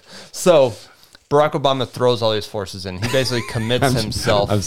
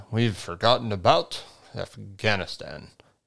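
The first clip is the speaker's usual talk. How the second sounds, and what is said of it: Poor Barack Obama impression. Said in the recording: “do a Barack Obama impression ... That's pretty terrible ... That was very bad”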